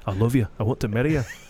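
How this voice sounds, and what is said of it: Put-on Scottish accent. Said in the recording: “talk Scottish”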